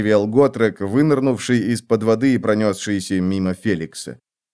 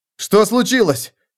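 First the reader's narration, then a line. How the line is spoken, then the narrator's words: Shout. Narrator (Russian): крикнул Феликс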